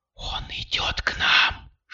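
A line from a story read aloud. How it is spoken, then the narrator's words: Whisper. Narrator (Russian): шепнула Кристина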